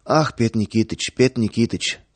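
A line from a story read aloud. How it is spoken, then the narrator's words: Rapid lisping chatter. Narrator (Russian): скороговоркой, слегка пришептывая, затараторил торговец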